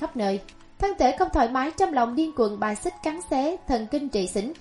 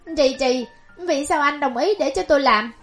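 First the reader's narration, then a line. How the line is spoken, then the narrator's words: Uncontrolled screaming. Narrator (Vietnamese): Gần lúc bạo phát, Ngô Sầu Ý khó kìm lòng nổi gào thét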